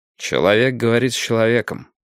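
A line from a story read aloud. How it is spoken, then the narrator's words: Muttered. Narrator (Russian): пробормотал Каманин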